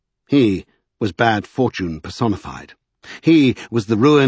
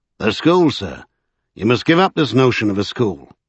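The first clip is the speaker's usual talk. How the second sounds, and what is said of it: Yorkshire accent. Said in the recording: “he said in a Yorkshire accent”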